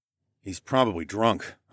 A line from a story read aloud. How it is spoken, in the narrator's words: I muttered